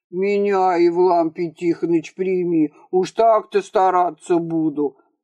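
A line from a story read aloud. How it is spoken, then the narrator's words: Fawning deep bass. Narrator (Russian): заискивающе пробасил бывший акцизный чиновник Козлов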